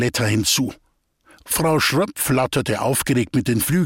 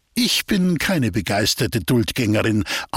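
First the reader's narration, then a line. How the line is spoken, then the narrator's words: Plain. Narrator (German): antwortete Goletta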